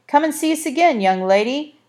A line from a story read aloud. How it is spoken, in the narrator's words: shouted the third man